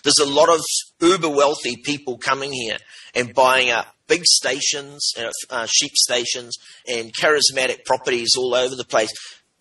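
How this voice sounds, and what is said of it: New Zealand accent. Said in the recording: “from New Zealand, in case you couldn't tell by the accent.”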